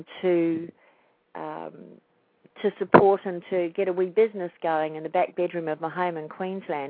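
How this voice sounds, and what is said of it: New Zealand accent. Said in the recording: “I'm a New Zealander, by the way, not an Australian. I know this accent sounds very similar.”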